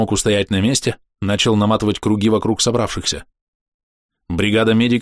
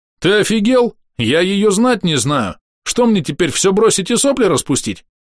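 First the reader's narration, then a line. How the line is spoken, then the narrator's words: Loud, confident. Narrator (Russian): громко и уверенно заговорил Вингер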